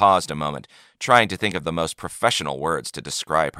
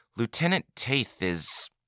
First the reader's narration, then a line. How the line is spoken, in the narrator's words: Berenson began slowly